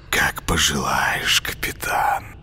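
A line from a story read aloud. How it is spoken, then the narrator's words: Barely audible hiss. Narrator (Russian): прошипел едва слышно Коля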